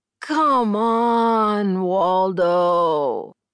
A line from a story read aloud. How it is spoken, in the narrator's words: groaned